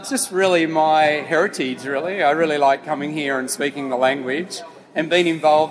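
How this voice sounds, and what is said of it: Australian accent. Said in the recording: “I'm picking up a bit of an accent here, and it's not French, and it's not Belgium. You're an Australian ... I've got a true Aussie accent”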